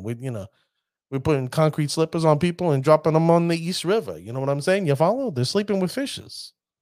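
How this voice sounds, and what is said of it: Put-on New York accent. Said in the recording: “I hate to bring in my New York accent over here”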